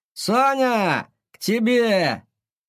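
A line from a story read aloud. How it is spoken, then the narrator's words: Shouting behind door. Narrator (Russian): он закричал за дверью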